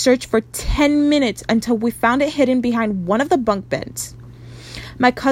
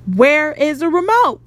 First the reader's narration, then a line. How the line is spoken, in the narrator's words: one of my cousins yelled